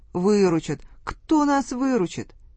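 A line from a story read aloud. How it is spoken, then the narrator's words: Whiny, tearful voice. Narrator (Russian): Барин плаксивым голосом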